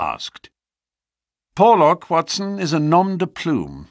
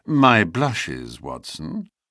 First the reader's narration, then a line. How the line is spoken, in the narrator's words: murmured in a deprecating voice